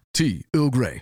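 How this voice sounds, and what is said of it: Captain Picard impression. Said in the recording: “have you just become a different man? ... doing a Captain Picard voice”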